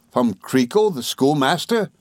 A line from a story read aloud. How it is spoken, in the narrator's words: exclaimed Traddles